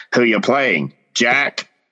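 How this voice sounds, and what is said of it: Imitates another person's accent. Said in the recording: “I'm glad that one of us tried to get close to the accent.”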